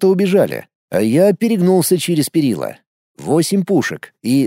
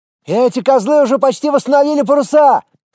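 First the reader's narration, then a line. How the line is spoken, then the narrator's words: Shouting from afar. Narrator (Russian): крикнул с другого борта Влад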